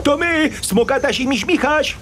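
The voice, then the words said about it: Shouting. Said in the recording (Polish): “Nie musisz krzyczeć. ... Nie krzycz,”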